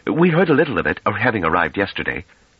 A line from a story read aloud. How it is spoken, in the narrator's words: Pellaret, who had grown uneasy at Trevise's annoyed tone, put in hastily